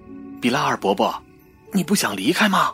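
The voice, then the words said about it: Quiet, hushed talking. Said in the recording (Chinese): “小声聊天”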